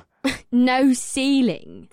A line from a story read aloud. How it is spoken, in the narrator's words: Amrila scoffed